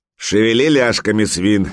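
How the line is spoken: Gruff bark, turned away. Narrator (Russian): не оборачиваясь, гаркнул берсерк

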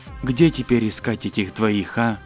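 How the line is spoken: Whispered. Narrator (Russian): Лев прошептал

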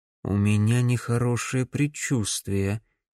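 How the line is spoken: Quiet. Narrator (Russian): тихо произнес Макс

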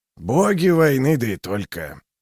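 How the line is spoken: Muttering under breath. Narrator (Russian): буркнул Клевер себе под нос

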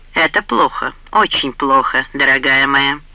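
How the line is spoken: Cold. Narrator (Russian): холодно ответил Джейрд

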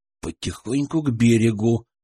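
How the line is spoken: Whispered command. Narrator (Russian): шепотом скомандовал Денис

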